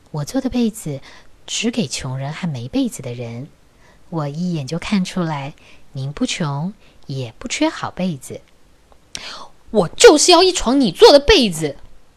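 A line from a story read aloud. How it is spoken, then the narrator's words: Calm, flat. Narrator (Chinese): 那位女士只是淡淡的说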